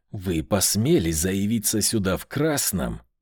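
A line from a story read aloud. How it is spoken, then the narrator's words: Hissing. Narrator (Russian): прошипел Данила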